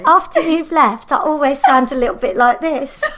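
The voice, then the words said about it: Higher-pitched imitation of friend's voice. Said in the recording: “Why have you gone higher? Because I've got a higher pitch.”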